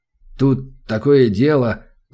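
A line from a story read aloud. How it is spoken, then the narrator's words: Mumbling. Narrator (Russian): замямлил он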